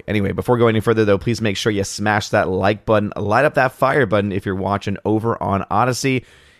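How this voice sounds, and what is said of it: Rough, strained voice. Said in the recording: “my voice is a little on the rough side today. Again, my voice never fully recovered ... I use my voice a lot”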